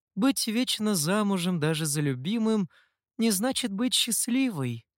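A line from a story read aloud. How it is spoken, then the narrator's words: Sad female confiding. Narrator (Russian): печально поделилась Хэйли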